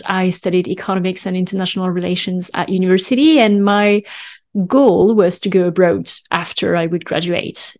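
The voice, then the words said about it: French accent. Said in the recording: “because I'm French, as you will have heard from my accent”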